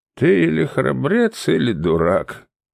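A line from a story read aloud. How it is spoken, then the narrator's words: Sad woman's voice. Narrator (Russian): печально произнесла женщина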